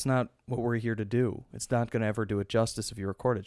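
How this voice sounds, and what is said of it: Slightly hoarse voice. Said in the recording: “my voice is a little hoarse because I was playing basketball with kids”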